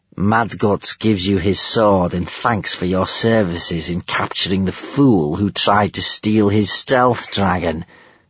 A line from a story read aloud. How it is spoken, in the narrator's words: sneered Gumboil